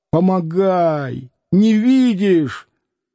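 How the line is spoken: Young man's hoarse shouting. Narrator (Russian): Молодой парень хрипло кричал

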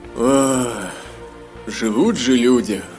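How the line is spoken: Envious mutter. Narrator (Russian): Завистливо пробормотал Гилрой

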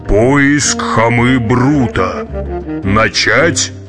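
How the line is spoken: Deep subterranean voice. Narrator (Russian): Вий произнес густым подземным голосом

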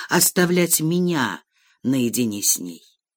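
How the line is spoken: Undertone. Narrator (Russian): сказал он вполголоса

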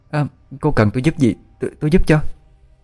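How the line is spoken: Stammering question. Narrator (Vietnamese): Điệp lắp bắp hỏi

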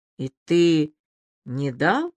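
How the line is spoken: Quiet question. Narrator (Russian): тихо спросила Аля

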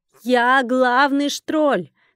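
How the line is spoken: Shouting at full volume. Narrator (Russian): крикнула, что есть мочи

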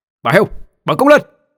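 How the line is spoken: Shout. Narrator (Vietnamese): Tôi quát

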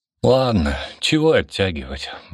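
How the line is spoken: Sigh. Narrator (Russian): вздохнул

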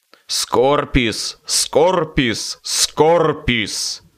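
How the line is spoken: Hateful angry growl. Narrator (Russian): прорычал он, взгляд его горел злобой и ненавистью

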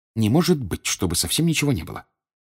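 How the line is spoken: Muttered. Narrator (Russian): пробормотала Гермиона

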